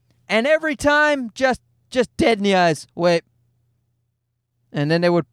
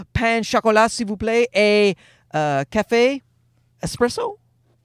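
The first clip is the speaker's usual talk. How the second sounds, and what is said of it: Put-on French accent. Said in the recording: “in my best French accent”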